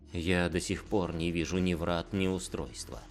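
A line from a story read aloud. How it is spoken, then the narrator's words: Quiet. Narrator (Russian): негромко произнес Эсуин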